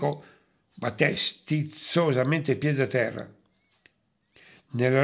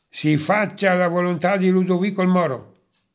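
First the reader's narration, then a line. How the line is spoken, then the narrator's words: Curt. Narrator (Italian): disse seccamente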